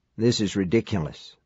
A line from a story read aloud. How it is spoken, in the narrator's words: Mike murmured